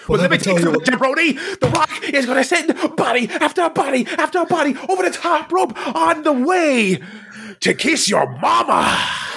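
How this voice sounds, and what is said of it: Wrestler promo impression. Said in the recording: “Can you do an impression of The Rock doing a promo?”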